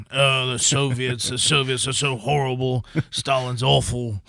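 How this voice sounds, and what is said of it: Imitates another person's voice. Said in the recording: “That's a pretty good impression ... I would hear that voice in my head. Gary Oldman from The Darkest Hour.”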